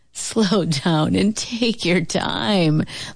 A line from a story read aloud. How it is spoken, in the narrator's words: laughed Uncle Booker T